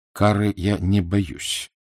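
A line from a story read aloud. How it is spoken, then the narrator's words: Dry. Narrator (Russian): сухо произнес Эраст Петрович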